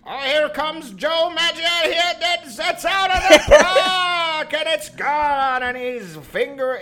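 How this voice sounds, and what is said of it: Old-time baseball announcer voice. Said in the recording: “I sound like a baseball announcer from like 1922 ... any baseball clip from like honestly before like 1970. They're like,”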